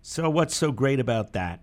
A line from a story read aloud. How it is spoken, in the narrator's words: Howard White asked